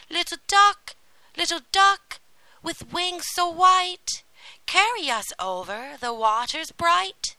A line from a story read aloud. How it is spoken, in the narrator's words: they cried aloud